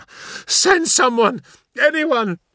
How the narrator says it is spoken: she pleaded

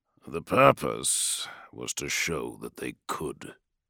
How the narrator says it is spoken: growled Dawn

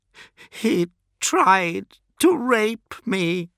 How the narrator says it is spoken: let her weep, and she cried

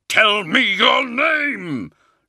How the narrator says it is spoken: shouted

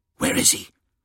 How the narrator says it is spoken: hissed Phocis Takar

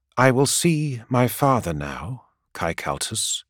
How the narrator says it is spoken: says very calmly and very clearly

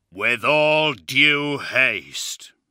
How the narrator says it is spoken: he said in a deep, rumbling voice

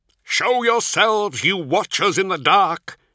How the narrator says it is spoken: he shouted into the raging wind

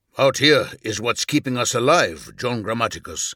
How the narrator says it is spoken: Numion replied

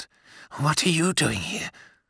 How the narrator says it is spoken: Voyen's voice was a low rumble

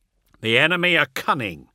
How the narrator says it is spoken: Cassiel replied, his tone silencing the other Blood Angel

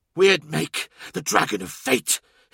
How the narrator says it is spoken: hissed Anquanen

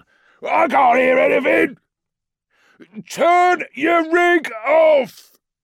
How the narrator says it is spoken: shouted Unt

